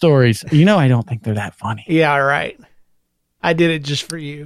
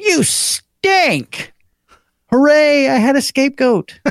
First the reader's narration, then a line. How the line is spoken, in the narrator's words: my mom yelled at my dad